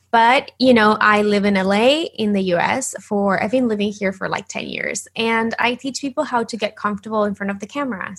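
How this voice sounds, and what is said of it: Slight Argentinian accent. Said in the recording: “I am originally from Argentina. So if you hear a little bit of an accent, that's why.”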